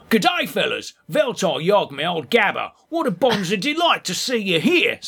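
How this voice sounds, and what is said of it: Attempted Australian accent. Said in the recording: “Doesn't sound very Australian... Just doing my impersonation of you.”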